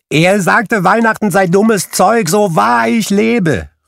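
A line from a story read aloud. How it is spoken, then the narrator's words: Exclaimed. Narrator (German): rief Scrooges Neffe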